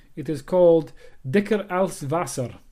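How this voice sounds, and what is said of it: Poor attempt at German accent. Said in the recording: “Forgive my German accent there. It wasn't a German accent. Forgive my attempt at a German accent.”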